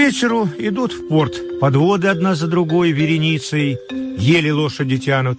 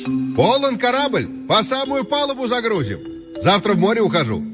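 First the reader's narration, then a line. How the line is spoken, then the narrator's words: Loud shout for all. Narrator (Russian): крикнул, чтобы всем было слыхать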